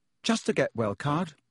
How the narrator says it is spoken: said Hermione hastily

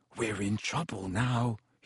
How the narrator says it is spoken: he said hoarsely

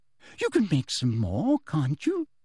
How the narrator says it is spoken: she said, her voice becoming more sweetly girlish as it always did when she was furious

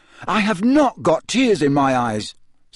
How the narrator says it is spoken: said Harry loudly

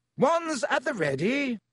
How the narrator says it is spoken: shouted Lockhart

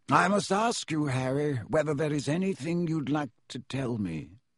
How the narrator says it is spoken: he said gently

